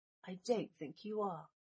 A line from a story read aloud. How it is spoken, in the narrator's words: Draco whispered